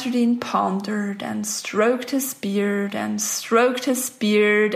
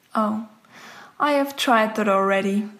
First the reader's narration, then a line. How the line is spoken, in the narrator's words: sighed the man